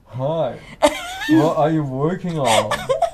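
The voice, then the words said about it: Imitates a flirting guy's voice. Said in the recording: “that's a really good impersonation.”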